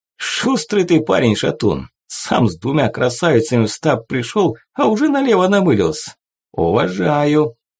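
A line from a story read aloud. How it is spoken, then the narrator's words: Laughing. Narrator (Russian): все еще смеясь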